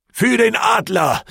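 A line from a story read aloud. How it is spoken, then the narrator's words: Battle cry. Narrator (German): rief ich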